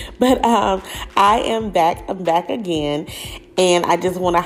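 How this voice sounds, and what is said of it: Usual voice. Nothing is said of it.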